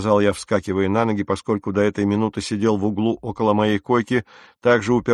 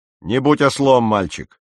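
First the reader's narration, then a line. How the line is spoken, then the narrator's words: Sharp reply. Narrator (Russian): резко ответил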